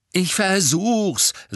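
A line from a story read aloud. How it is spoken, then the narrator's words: Angry. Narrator (German): sagte Harry zornig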